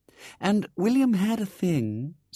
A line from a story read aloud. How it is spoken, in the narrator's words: said Ethel dreamily